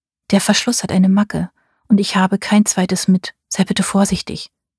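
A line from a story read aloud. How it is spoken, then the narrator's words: Soft pleading request. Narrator (German): bat sie mich leise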